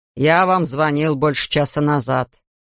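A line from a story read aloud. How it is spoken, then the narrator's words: Angry grumbling. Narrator (Russian): сердито пробурчал Элвин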